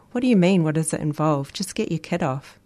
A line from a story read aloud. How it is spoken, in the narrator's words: He chuckled